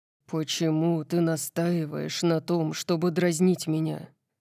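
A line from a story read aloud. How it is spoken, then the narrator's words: Low-voiced question. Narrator (Russian): спросил он низким голосом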